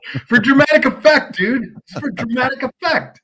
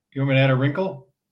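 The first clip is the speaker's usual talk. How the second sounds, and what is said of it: Whispering. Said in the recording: “you're whispering. It's creepy.”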